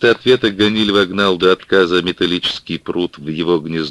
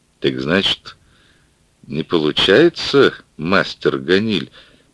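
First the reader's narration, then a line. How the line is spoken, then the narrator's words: Uncertain question. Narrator (Russian): Неуверенно спросил он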